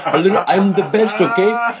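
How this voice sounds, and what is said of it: Imitated voice drifting into Indian accent. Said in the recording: “real Donald Trump sounds more like this, but sometimes I go a little bit like this ... That's got an Indian ... so Indian ... I shifted Indian”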